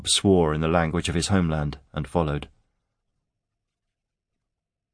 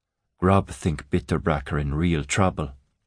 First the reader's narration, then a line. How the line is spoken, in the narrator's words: he murmured